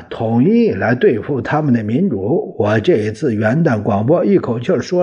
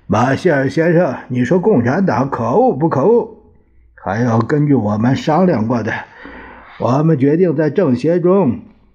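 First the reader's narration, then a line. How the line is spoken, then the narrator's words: Woeful. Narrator (Chinese): 蒋介石却哭丧着脸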